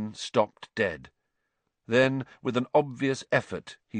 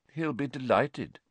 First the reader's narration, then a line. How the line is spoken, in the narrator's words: said Lupin coolly